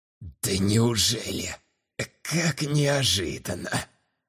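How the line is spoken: Hoarse smirking. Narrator (Russian): Хрипло выдавил, усмехаясь

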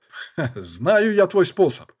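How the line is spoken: Chuckled. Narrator (Russian): хохотнул человек

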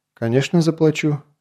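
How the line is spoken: Calm reply, young man. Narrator (Russian): спокойно ответил парень

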